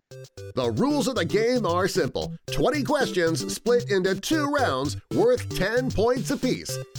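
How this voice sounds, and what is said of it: Put-on Perth Australian accent. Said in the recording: “He's going to do his best accent from Perth, which I think is a little bit different than a Sydney accent”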